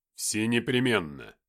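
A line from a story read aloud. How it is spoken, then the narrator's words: Cold man's reply. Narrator (Russian): холодно ответил мужчина в синей форме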